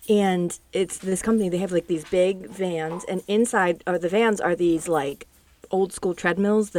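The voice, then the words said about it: Strained, hoarse voice. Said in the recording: “I'm like losing my voice.”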